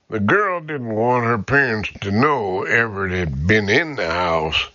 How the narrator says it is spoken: Harrison murmured

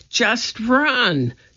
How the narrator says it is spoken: cried Annie

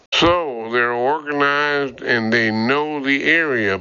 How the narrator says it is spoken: Bert grumbled

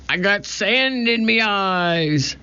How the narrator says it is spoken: Pinky whined

